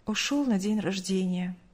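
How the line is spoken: Curt, sighing. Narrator (Russian): коротко ответила мать, вздохнув

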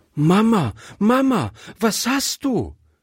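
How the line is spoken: Called out. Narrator (German): rief Gretchen

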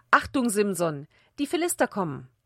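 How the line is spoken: Repeated call. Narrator (German): Wieder rief

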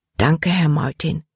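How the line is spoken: Softly. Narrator (German): sagte sie leise

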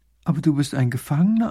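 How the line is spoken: Plain. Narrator (German): antwortet die Prinzessin

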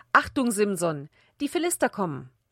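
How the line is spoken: Called out. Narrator (German): Wieder rief sie

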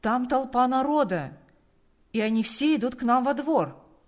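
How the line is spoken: Shouting. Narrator (Russian): крикнул он

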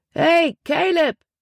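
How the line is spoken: Calling out. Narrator (German): rief er

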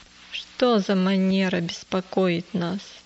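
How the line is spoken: Grumble. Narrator (Russian): проворчал он

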